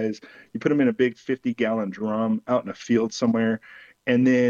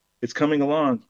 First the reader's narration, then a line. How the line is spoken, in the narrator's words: Crow called out